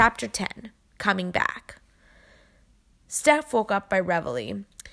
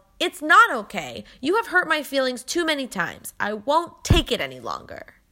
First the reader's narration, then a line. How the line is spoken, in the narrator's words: Then she yelled